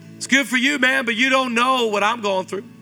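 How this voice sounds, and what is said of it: Speaker's own distinctive American accent. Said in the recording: “Your half black accent. Don't judge my accent. Worked hard for this.”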